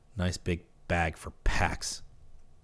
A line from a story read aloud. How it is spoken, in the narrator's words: his fellow sniper muttered